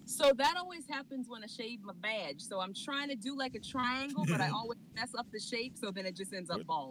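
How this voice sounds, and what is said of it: Country accent. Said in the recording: “Where'd the country accent come from?”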